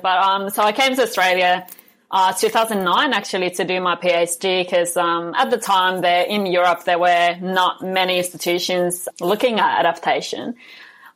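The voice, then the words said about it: Mixed Finnish-influenced English accent. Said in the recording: “we have a Finnish host ... I have an accent, and it's a very mixed accent”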